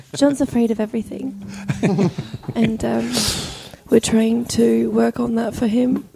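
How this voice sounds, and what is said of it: Vague British accent. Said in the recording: “She's got an accent what now. It's getting sexier and sexier. ... It's a sexy accent. ... Vaguely UK ... now it's a little Australian.”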